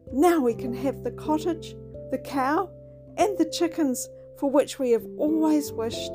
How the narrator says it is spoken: exclaimed

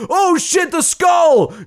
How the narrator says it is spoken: Jenny screams her head off

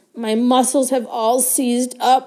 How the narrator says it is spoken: he groaned

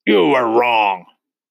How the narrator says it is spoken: the Trunchbull barked

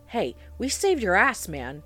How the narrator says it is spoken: he called out

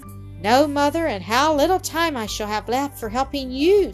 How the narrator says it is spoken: sighed Mildred

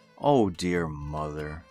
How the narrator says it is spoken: sighed the boy

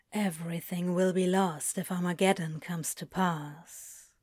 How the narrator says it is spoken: Crowley says quietly

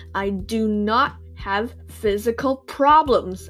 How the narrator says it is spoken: I roared

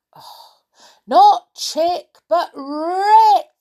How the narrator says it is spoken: shouted Moonface

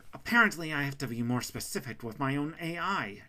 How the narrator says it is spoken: she shouted back at Sean

